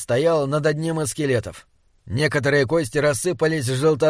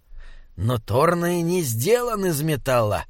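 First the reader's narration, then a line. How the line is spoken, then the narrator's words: Grumbling. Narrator (Russian): проворчал Бинабик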